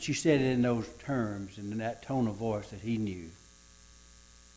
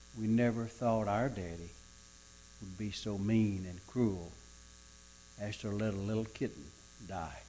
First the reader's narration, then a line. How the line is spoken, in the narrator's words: the children quietly saying to each other